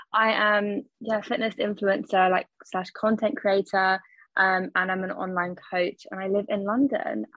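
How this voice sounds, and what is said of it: London English accent. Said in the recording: “you're the first Londoner I've had on. So your accent, ... so fun to listen to”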